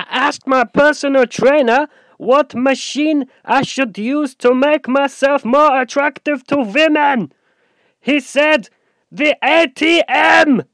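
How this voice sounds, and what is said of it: Poor put-on German accent. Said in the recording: “It's not really a good German accent, is it?”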